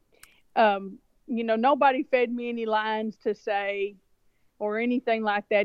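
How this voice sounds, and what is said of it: Speaks with a noticeable regional accent. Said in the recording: “you will hear this same accent that you're hearing right now... I heard that accent”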